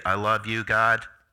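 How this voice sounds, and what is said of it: Robot voice. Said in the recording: “That's my best robot voice”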